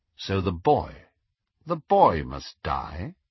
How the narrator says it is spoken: asked Snape quite calmly

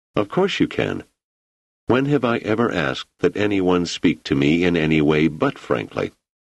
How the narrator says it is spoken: his voice remained steady

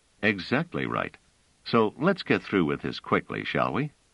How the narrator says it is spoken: Trevise said coolly

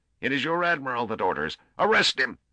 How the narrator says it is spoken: He paused and then shrieked

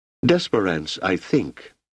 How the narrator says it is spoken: said Manella

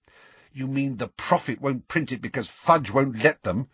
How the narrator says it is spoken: said Hermione irritably

